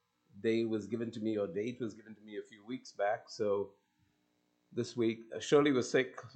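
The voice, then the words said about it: Hoarse voice. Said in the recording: “You have to listen to my hoarse voice.”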